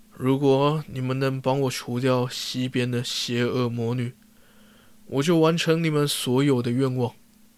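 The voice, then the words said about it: Majestic, wise-sounding voice. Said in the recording (Chinese): “一个威严而睿智的声音说”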